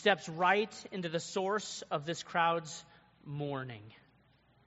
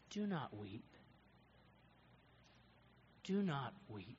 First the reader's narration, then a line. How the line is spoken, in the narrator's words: tenderly, softly says